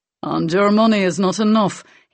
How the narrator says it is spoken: he said dryly

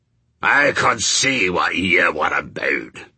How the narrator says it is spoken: snarled Shadwell

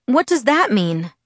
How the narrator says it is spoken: My voice quavered and I fought to control it

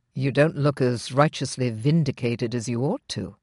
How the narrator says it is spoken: he pointed out, his voice insidiously soft, insidiously close

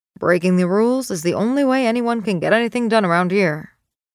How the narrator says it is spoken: he grumbles

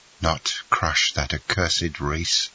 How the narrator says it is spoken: murmured he

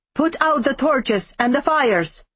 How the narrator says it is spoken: Marek bellowed, his voice unnaturally loud

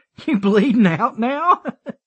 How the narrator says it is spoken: Dylan laughed some more

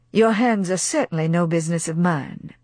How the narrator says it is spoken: said Brett coolly

